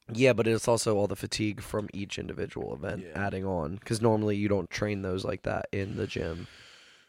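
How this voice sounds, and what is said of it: Strained voice from screaming. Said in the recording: “sorry about my voice. I was screaming a little at people at the gym this morning.”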